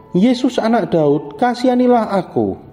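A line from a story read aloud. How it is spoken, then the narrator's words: Crying out ever louder. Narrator (Indonesian): Tetapi semakin kuat ia berseru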